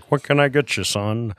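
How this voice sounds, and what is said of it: Imitates another person's voice. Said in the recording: “that's the worst impression you do ... That is the worst impression of my dad”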